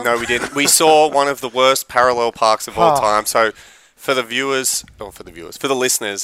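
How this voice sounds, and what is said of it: Australian accent. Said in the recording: “the Australian accent.”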